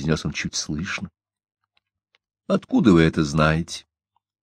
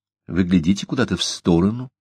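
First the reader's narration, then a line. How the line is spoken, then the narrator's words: Calm. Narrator (Russian): спокойно ответила она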